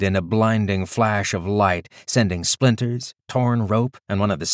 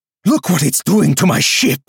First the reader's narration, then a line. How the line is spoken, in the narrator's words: Andal shouted